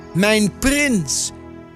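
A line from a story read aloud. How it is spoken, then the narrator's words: Calling out. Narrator (Dutch): riep Adelheid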